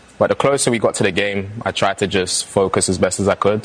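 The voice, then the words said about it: London accent. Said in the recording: “New York born, but London raised. That's where that accent comes from”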